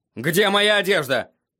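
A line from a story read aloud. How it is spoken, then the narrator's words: Barking. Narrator (Russian): рявкнул он Шае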